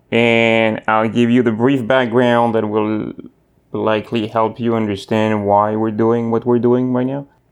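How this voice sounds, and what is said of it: Slight French accent. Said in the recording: “I have a slight accent ... I am born and raised in France, in Southwest France, in Bordeaux”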